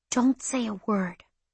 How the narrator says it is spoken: she whispered

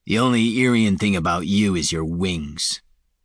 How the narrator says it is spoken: Falinar said bitterly

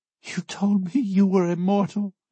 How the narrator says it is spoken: she sobs

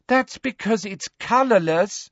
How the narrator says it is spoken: said Ginny in a convincingly exasperated voice

